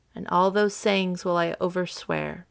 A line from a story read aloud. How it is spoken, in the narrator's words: Viola replied